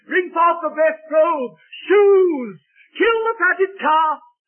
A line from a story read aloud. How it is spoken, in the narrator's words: the father got so excited he shouted out